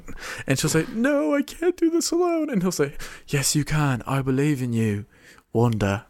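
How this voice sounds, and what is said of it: Bad British accent imitating Vision. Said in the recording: “my really bad British Paul Bettany accent ... My accent is so bad. I don't know how to do a British accent.”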